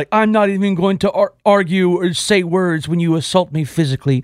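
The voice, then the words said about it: Pious, very clearly enunciated voice. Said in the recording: “I like your pious accent ... The, the very clear enunciated words.”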